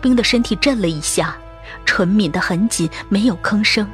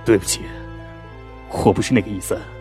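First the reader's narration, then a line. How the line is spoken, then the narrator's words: Low deep voice. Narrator (Chinese): 肖冰 沉声道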